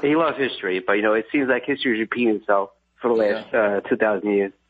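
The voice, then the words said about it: Speaks with a noticeable accent. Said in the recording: “does anybody ever make fun of your accent?”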